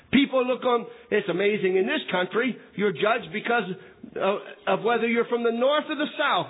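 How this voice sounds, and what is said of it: Northern US Yankee accent. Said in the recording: “I don't try to hide my accent. I'm a Yankee, I'm from that area of the country.”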